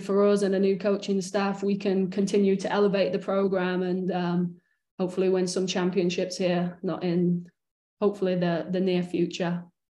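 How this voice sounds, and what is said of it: English accent. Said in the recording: “that brilliant English accent”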